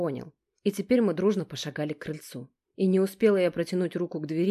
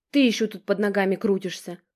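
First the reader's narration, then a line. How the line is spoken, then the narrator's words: Angry snarl. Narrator (Russian): рыкнула Алекс на собаку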